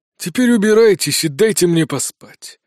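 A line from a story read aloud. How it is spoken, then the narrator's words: Barked. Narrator (Russian): рявкнул Долотов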